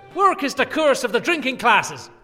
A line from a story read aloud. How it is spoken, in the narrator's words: I bellowed